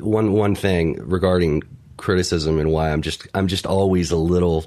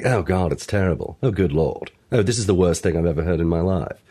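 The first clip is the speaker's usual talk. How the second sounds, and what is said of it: Fake British accent. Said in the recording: “you affecting a fake uh, ... British accent? ... I am.”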